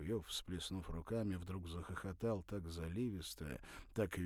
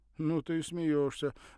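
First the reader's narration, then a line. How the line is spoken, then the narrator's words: Exclaim. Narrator (Russian): воскликнул Ревзин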